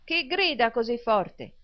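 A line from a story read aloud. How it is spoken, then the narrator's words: Shouted. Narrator (Italian): gridò Smike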